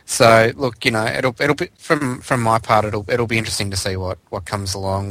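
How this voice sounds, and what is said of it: Australian-accented English speech. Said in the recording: “The accent.”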